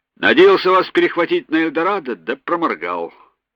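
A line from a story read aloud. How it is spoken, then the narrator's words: Cheerful. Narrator (Russian): весело сказал Маклинс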